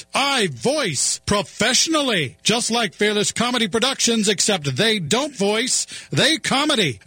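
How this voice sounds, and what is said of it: Exaggerated professional announcer voice. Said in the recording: “Hello, I'm a professional announcer voice.”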